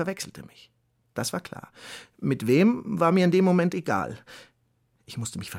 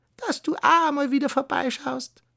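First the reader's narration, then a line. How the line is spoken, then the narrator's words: Croaked. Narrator (German): krächzte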